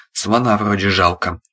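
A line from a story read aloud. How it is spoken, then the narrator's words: Shaken mumble. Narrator (Russian): промямлил потрясенный Арсений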